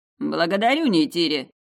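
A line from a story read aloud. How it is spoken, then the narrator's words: Master's snort. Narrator (Russian): хмыкнул магистр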